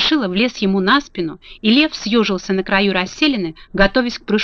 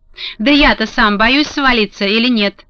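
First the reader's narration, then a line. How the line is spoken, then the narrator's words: Angry interruption. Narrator (Russian): сердито перебил лев разболтавшегося Страшилу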